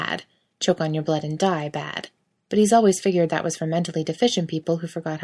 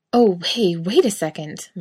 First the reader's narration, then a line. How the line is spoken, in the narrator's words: Mike gasps, like he's discovered the cure to cancer in his D-cups